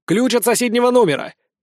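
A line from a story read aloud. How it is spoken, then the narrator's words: Shouted. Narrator (Russian): крикнул Лиззи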